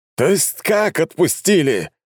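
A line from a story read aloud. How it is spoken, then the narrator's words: Loud shout. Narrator (Russian): крикнул на весь ресторан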